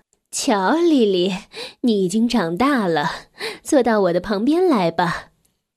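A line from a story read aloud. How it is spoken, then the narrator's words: Warm smiling. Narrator (Chinese): 鼠妈妈微笑着亲切地说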